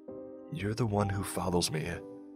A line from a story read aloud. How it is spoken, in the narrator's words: I murmur, heart a pound in my chest